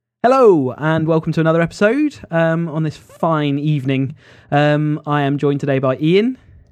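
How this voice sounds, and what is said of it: Congested, stuffy-nosed voice. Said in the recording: “I've got a cold”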